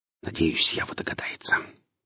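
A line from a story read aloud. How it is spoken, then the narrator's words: Whisper under breath. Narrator (Russian): прошептал себе под нос Гриф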